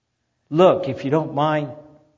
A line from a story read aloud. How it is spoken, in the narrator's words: I said crossly